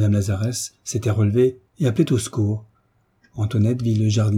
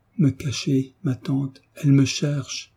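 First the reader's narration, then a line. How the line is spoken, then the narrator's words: Choked frantic murmur. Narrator (French): en murmurant, la voix étranglée et les yeux fous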